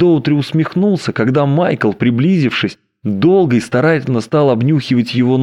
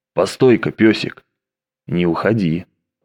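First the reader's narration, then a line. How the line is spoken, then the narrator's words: Hoarse, curt. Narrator (Russian): он хрипло бросил ему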